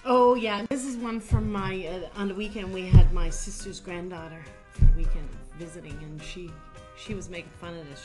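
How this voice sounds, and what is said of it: Newfoundland accent. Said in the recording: “my newfie accent.”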